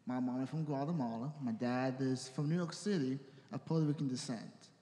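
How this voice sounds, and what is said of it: Spanish-influenced accent, soft fast consonants. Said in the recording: “my accent kind of gave me away ... the accent doesn't emphasize the consonants ... I don't say my consonants too well because it just talks faster than I'm supposed to in English”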